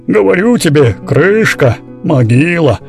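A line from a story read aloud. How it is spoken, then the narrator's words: Grumbling older man. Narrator (Russian): проворчал дядя Иван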